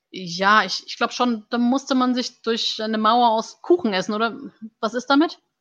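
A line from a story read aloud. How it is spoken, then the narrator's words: Slightly nasal recitation. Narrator (German): rezitierte mit leicht nasaler Stimme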